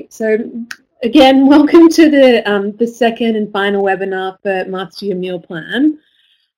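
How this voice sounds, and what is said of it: Congested voice from a cold. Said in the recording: “I've got a bit of a cold, ... So excuse my cold.”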